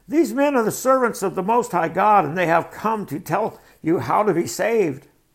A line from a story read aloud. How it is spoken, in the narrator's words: shouting